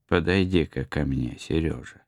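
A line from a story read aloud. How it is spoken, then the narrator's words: Affectionate. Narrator (Russian): он ласково сказал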